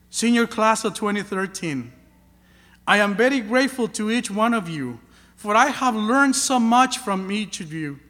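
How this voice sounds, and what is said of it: Heavy non-native English accent. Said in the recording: “My heavy accent became just my accent.”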